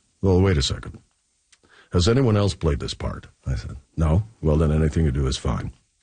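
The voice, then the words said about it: Impression of Leslie Nielsen. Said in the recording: “good Leslie Nielsen impression”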